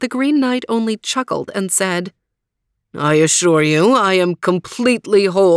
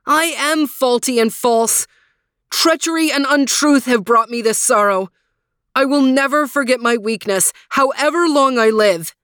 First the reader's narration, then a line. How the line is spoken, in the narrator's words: cried